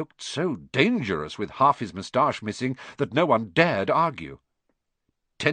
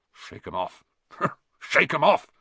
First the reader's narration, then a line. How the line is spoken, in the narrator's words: he would mutter